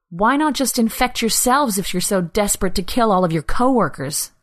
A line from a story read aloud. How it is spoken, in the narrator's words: Anna spat out, anger rising through the numbness she'd been living in for weeks